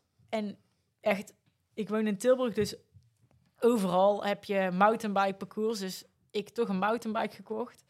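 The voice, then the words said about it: Brabant Dutch accent. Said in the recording (Dutch): “ik kom oorspronkelijk uit Brabant, zoals je waarschijnlijk aan mijn accent kan horen”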